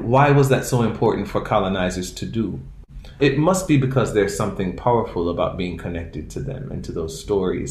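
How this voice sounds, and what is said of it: Caribbean accent. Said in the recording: “I don't always talk like this my whole life. I've not had a Caribbean accent my whole life ... talking with my Caribbean accent”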